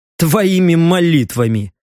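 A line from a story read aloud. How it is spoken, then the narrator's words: Smirking snort. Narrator (Russian): хмыкнул Леха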